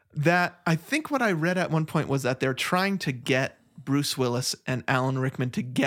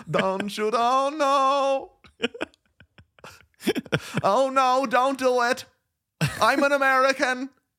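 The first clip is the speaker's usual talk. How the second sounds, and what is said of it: Fake American accent over German. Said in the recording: “a British man playing a German, then doing a fake American accent”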